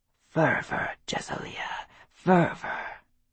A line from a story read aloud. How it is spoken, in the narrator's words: a hot whisper in my ear